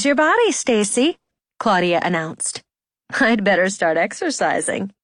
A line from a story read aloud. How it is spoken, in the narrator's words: Stacy laughed